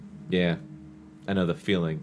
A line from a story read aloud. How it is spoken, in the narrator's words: Marvin said softly